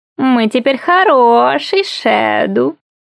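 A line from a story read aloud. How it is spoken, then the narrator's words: Purring. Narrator (Russian): промурлыкал Монтаг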